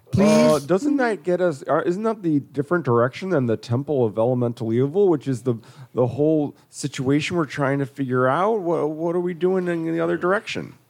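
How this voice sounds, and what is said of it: Character voice with Wisconsin accent. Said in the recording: “It's got a kind of Wisconsin accent.”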